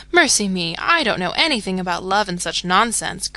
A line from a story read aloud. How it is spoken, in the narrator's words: cried Jo, with a funny mixture of interest and contempt